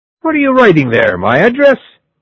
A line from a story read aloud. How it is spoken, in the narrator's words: shouted the drunken man